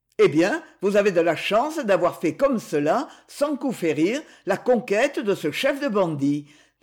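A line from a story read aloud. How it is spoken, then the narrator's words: Exclaimed. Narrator (French): s'exclama M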